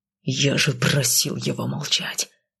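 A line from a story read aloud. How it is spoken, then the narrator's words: Husband's growl. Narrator (Russian): прорычал муж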